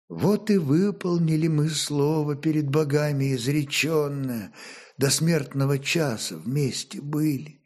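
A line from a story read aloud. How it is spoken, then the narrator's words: Barely audible. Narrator (Russian): молвила она едва слышно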